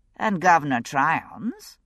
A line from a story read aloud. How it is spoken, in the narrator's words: I said dryly